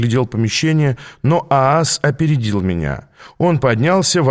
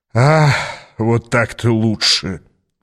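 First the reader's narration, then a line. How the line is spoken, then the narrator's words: Sigh. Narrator (Russian): вздохнул он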